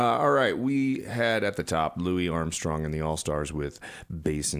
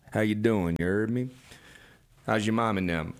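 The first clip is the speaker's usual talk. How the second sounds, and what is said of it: Put-on Southern accent. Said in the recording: “I didn't start the show with any Southern accent.”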